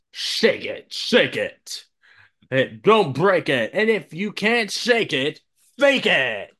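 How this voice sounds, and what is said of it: Announcer voice. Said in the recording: “in an announcer voice?”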